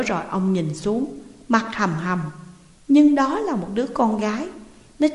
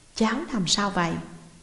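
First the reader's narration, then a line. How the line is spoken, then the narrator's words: Gentle, kindly question. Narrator (Vietnamese): Ông sửng sốt, hỏi giọng thật dịu dàng và hiền lành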